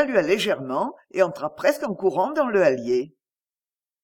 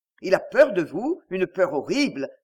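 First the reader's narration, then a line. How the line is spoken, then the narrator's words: Plain. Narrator (French): dit M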